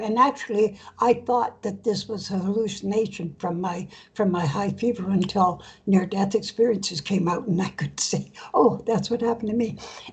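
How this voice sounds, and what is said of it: Weak, fading voice. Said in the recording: “my voice is disappearing”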